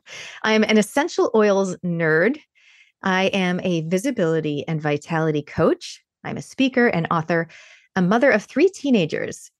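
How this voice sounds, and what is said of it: Mixed Canadian and New Zealand accent. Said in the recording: “You can tell from my accent that I'm a Canadian Kiwi, a Kiniwi”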